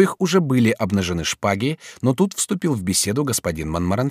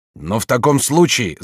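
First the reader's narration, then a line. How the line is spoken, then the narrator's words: Shout. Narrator (Russian): закричал господин Монтгомери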